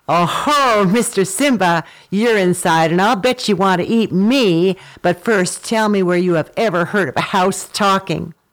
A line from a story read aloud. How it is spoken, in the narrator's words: Sungura burst out laughing and shouted